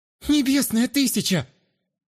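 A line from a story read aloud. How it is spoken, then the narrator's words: Pleading. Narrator (Russian): взмолилась Астра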